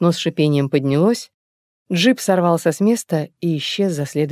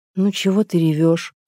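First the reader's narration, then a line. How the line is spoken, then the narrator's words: Sad question. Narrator (Russian): грустно спросила она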